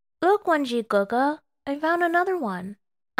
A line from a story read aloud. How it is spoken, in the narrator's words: Ayuan said cheerfully